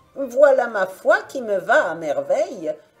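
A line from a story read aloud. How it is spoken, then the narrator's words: Joyful surprised exclamation. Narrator (French): s'écria-t-elle avec une joyeuse surprise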